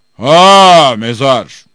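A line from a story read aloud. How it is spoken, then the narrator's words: Genie shouting. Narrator (Turkish): diye bağırdı cin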